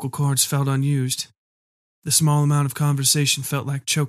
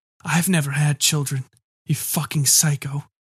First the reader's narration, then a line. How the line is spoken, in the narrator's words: I rasped